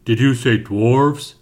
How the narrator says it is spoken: a booming voice said from the shadows of the cave

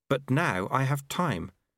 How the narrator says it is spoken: said Lobsang earnestly

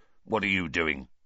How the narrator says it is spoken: Filch snarled suspiciously

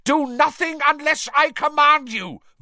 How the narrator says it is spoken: Voldemort shouted to the Death Eaters

